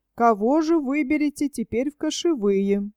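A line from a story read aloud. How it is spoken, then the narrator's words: Plain. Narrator (Russian): сказали старшины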